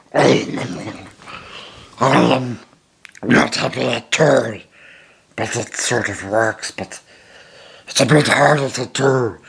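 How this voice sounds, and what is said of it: Gollum voice. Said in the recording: “that probably disgusting thing you just heard was me doing my Gollum voice.”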